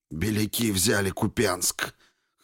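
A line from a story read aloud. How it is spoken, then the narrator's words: Hoarse speech. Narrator (Russian): хрипло проговорил Егоров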